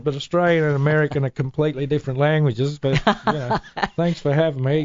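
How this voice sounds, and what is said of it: Australian accent. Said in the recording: “was born and raised in Sydney, Australia. I'm sure you knew that by his accent.”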